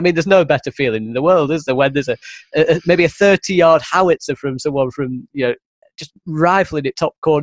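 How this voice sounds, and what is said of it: Northern English accent. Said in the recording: “my northern accent.”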